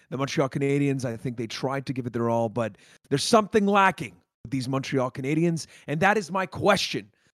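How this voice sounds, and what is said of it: Hoarse, partly lost voice. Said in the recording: “I'm sorry for if you can hear it in my voice. I lost it”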